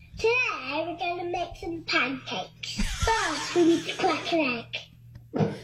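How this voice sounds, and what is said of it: Young child with English accent. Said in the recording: “a 3-year-old chef in England ... He's a huge hit, obviously, because of his adorable accent.”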